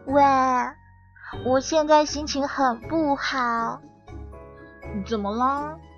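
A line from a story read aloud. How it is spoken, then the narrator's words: Long sigh. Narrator (Chinese): 珊珊叹了一口长气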